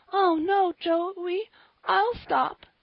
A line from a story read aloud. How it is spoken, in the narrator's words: That brought Polly to, and she sobbed out